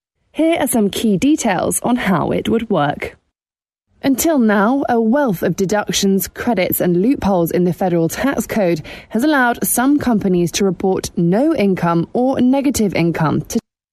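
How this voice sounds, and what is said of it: Foreign accent. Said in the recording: “this is a foreigner, if you couldn't tell by that accent.”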